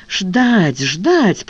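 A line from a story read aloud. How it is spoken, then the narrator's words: Moaning. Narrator (Russian): простонала Ева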